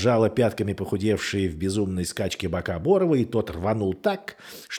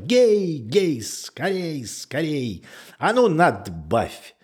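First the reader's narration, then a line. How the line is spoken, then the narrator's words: Shout turning sharp, mournful. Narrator (Russian): прокричала Наташа и вдруг закричала резко и как-то тоскливо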